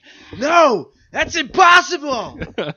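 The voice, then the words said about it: Imitates another person's voice, shouted. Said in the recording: “my horrible Mark Hamill impersonation.”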